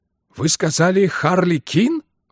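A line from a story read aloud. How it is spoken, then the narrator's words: Exclaimed. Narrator (Russian): воскликнул он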